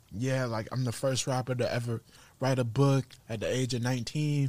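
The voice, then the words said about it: Soft, genuine-sounding imitated voice. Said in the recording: “you do a like, good impersonation of him ... it's really, really good ... sounds like Lil B. It's like real like genuine and like I care and a little soft.”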